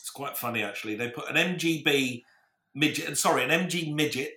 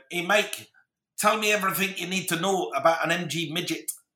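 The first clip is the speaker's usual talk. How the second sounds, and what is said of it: Bad put-on Scottish accent. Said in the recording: “he was Scottish ... Bad Scottish accent, I know. I apologise to our Scots.”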